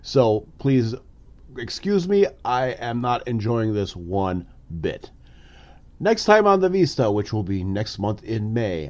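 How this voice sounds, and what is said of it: Congested, sinus-affected voice. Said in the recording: “my voice is a little different, it is. I've had sinus issues for the past week”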